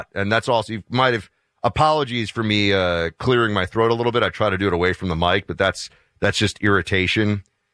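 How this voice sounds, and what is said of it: Hoarse, deeper than usual voice. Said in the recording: “your voice seems to be like an octave deeper today ... It is hoarse ... my voice is a little bit shot ... The back of my throat is scratched up”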